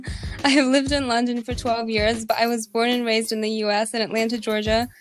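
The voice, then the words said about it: American-ish accent, not British. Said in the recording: “my American-ish accent has stuck... I never adopted that British twang”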